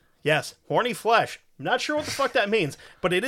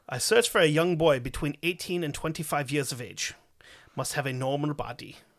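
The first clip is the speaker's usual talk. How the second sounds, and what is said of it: Put-on German accent. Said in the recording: “Should I do the accent or no? ... it is translated from German”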